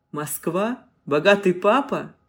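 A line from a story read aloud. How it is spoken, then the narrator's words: Laughing loudly. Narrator (Russian): Игнат расхохотался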